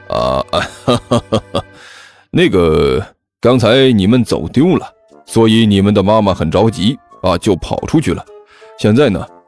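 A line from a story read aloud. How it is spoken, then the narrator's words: Falsely cheerful. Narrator (Chinese): 人贩子在心里用最恶毒的语言把这个该死的小胖子骂了一顿之后，脸上还是一片笑容的说道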